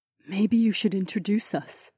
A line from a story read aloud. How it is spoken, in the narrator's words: Aliona whispered